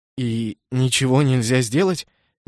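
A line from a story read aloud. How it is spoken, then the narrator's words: Hesitant question. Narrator (Russian): неуверенно спросил Кеннет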